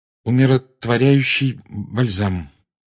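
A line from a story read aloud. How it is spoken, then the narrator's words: Forced out. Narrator (Russian): выдавил из себя Гарри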